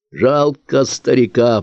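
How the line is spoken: Hoarse wheeze. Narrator (Russian): просипел Волчанов

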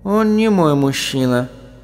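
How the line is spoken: Calm correcting voice. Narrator (Russian): спокойным голосом поправила его Сахариса

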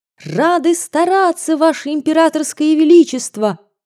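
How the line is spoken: Ringing cheerful group shout. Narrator (Russian): Звонко и весело, не уступая в искусстве солдатам, дружно крикнули мы

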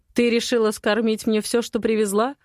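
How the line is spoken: Mocking question. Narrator (Russian): Насмешливо выгнув бровь, спрашивает Матвей

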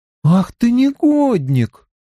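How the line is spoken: Offended drawl. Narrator (Russian): обиженно протянула она

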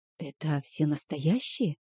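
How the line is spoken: Quiet question. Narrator (Russian): спросила тихо

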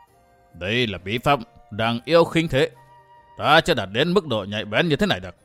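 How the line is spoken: Dreamy mutter. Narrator (Vietnamese): Tề Thiên Địa Đế đôi mắt mơ màng lẩm bẩm

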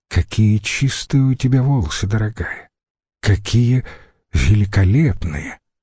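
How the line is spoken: Affectionate murmuring. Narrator (Russian): ласково приговаривал занятый своим делом Литавик

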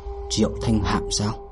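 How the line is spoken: Soft exclamation. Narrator (Vietnamese): Diệp Định Tây khẽ hô một tiếng

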